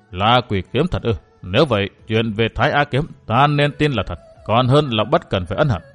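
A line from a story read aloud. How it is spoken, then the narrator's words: Pensive muttering. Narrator (Vietnamese): Hư Thanh đạo trưởng trầm mặc một lúc, đoạn lẩm bẩm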